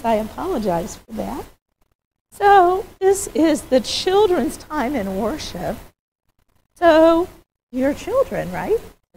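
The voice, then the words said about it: Hoarse, fading voice. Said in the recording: “I'm kind of losing my voice.”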